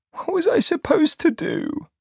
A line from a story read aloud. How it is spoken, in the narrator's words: She sobbed